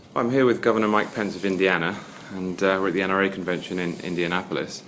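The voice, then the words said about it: British accent. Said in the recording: “As you can hear from my accent, I'm British.”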